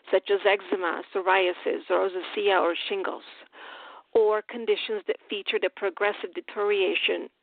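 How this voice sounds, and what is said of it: Speaks with a noticeable accent. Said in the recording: “you can tell my accent here”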